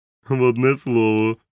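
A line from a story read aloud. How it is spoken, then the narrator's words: Laughing. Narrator (Ukrainian): засміявся доктор Лівсі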